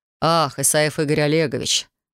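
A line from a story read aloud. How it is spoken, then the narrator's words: Businesslike man. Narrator (Russian): деловым тоном произнес мужчина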